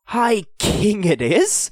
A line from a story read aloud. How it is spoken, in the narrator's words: Hugh spluttered into his goblet